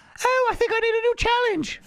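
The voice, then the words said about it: David Beckham impression. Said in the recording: “I do the best David Beckham impression.”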